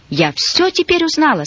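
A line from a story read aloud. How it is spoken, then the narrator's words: Agitated. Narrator (Russian): сказала взволнованно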